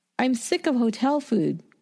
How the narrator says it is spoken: Greg cried

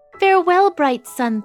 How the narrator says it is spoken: Thumbelina cried

